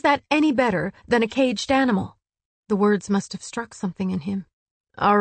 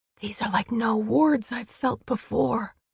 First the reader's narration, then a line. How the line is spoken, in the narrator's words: she whispered